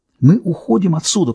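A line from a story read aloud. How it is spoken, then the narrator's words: Female whisper. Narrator (Russian): прошептала она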